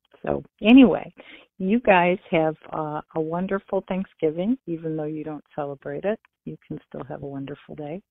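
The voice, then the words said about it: Michigan American accent. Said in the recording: “we love your Michigan accent ... it's sort of nice to hear that accent”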